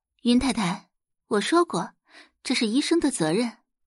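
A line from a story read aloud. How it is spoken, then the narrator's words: Calm, faint smile. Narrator (Chinese): 宋宝仪淡淡一笑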